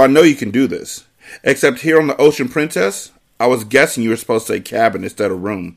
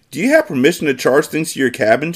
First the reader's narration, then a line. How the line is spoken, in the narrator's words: she asked